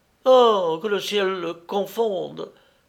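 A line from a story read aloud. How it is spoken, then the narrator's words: Exclaimed. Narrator (French): s'écria Zora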